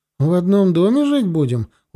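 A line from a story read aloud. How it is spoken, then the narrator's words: Bewildered question. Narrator (Russian): уточнила бабушка, растерянно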